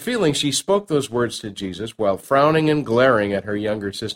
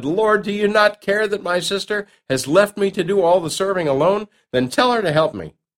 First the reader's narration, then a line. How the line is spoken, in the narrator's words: Martha reached her boiling point and, in a moment of exasperation, blurted